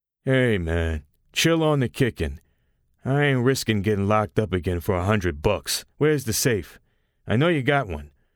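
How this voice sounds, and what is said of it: Deep male voice. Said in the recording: “The robber with the deep voice”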